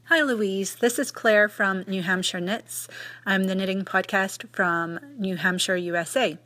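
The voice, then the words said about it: Scottish accent. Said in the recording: “is originally a Scot. She's got a fantastic accent.”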